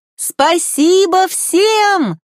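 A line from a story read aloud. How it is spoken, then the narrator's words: Shout. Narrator (Russian): крикнула она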